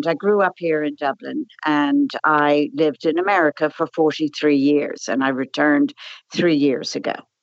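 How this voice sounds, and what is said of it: Dublin accent with American influence. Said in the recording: “you probably can tell by my accent that I've been out of Ireland”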